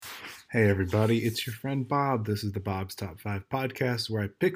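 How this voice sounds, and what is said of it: Sounds a little sick. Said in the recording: “I sound a little sick”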